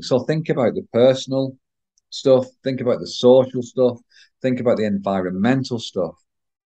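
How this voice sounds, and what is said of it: Croaky voice. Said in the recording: “in my little croaky voice.”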